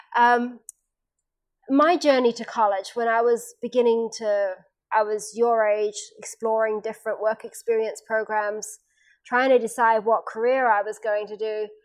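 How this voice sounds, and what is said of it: English accent with Australian roots. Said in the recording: “born in Australia, raised in England, I've spent nearly half my life now in, in the United States, but the accent comes from when you're younger, so that's why it's there”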